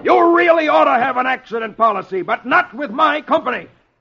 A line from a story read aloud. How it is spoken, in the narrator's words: He yells back at Archie